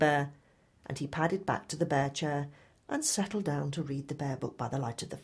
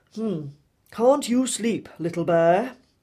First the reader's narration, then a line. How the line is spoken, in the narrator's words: grunted Big Bear